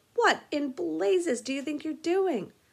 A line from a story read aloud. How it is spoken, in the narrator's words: a guard nearby yelled